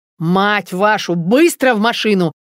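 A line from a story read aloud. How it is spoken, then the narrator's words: Yelling. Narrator (Russian): заорал Макар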